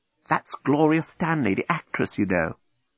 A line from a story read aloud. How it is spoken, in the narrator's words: the deskbot whisper